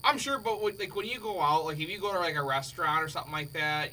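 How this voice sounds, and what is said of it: Chicago accent. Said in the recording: “Chicago accent”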